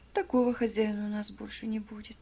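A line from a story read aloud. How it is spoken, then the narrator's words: Glum. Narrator (Russian): уныло продолжал Адольф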